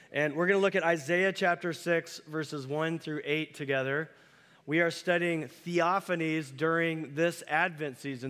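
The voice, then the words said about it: Voice with a bad cold. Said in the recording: “I've got a bad cold”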